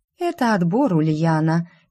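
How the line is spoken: Lazy reply. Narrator (Russian): лениво отозвалась Кизония

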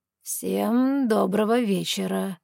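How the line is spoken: Smooth ingratiating drawl. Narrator (Russian): Вкрадчиво протянул незнакомец

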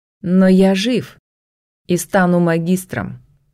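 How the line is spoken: Cold reply. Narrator (Russian): холодно ответил Итан

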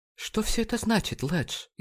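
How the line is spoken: Frightened. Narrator (Russian): испуганно произнесла она

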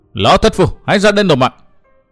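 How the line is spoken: Roaring. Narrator (Vietnamese): gầm thét một tiếng

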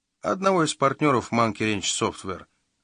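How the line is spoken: Plain. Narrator (Russian): ответил, наконец, детектив

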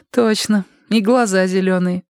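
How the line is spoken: Giggling. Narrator (Russian): хихикнула Тома

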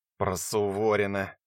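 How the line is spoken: Disgusted with snort. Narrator (Russian): с отвращением произнес Коновальцев и неприятно фыркнул

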